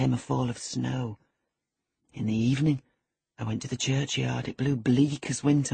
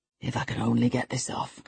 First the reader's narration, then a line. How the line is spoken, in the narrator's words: I muttered